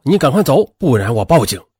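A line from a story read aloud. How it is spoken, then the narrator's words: Angry roar. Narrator (Chinese): 杨静却吼道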